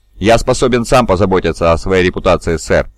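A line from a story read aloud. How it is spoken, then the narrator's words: Plain. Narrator (Russian): ответил генерал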